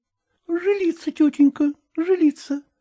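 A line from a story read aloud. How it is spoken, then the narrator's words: Timid. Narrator (Russian): робко отвечала Аграфена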